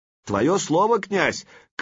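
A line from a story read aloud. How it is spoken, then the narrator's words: Shout after someone. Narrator (Russian): крикнул ему вслед Сварг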